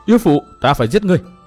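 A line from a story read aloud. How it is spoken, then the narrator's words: Loud shout. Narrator (Vietnamese): hét lớn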